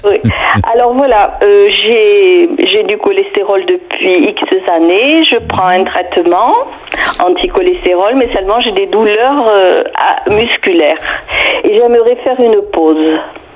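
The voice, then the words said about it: Toulouse southern French accent. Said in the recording (French): “est toulousaine ... j'adore votre accent ... c'est trop mignon”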